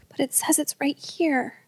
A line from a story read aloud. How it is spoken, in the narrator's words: Elijah muttering to himself